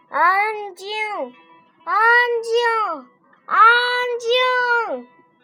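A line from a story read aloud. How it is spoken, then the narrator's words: Loud shouting. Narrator (Chinese): 士兵们大声地喊着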